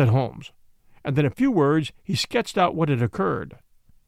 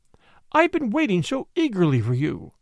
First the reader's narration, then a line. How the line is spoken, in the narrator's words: she cried